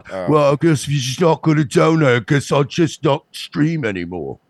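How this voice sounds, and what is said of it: Put-on British accent. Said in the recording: “You got to do it in a British accent for it to work. ... you got to do it like Cog.”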